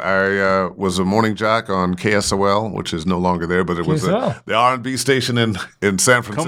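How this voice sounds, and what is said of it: Smooth radio DJ voice. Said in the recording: “You do got a DJ voice.”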